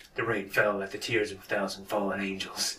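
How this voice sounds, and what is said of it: Snake Eater character voice. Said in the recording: “in your Snake Eater voice”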